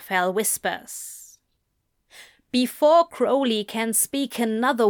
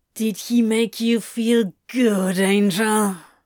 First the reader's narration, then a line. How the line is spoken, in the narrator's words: Crowley growls